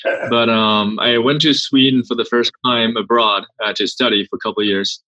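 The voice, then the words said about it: German accent. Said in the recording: “the weird German accent.”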